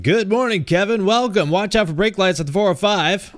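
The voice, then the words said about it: Radio-style podcast announcer voice. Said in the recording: “podcast voice”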